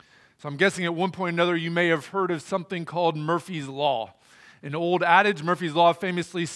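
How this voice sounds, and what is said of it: Usual voice. Nothing is said of it.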